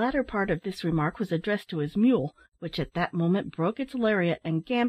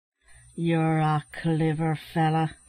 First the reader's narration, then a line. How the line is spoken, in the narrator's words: said Larry, as he came up panting